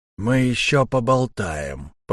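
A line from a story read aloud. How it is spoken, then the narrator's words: Said through teeth. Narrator (Russian): процедил штурмовик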